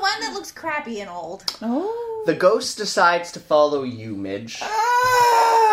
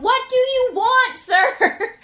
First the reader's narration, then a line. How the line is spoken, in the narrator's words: I shout